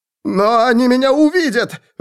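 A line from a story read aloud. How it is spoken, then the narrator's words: Pleading. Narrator (Russian): Взмолился человек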